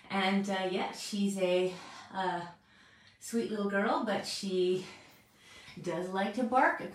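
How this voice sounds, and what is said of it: Out of breath, breathy speech. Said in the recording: “I'm all out of breath because I've been chasing Poppy around”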